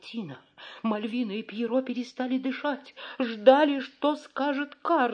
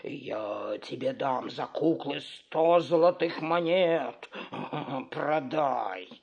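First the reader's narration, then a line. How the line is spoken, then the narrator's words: Grumbling. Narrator (Russian): Карабас-Барабас проворчал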